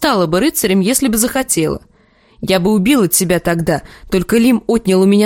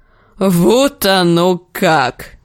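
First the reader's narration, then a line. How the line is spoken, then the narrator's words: Laughing. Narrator (Russian): засмеялся Клиган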